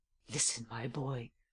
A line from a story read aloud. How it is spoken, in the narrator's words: I whispered in his ear